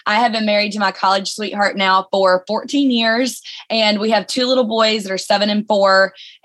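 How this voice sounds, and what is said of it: Alabama Southern accent. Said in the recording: “You probably heard my accent. I'm from Birmingham, Alabama.”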